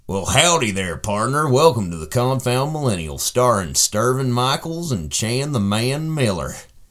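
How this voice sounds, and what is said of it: Put-on cowboy voice. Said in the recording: “doing the cowboy voice.”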